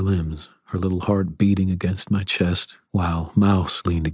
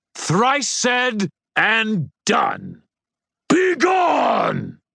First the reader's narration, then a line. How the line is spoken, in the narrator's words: The Titan shrieked in outrage